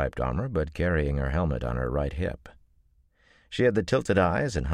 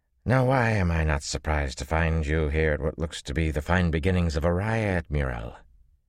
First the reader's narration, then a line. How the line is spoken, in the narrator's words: Her slurred accent had a twang in it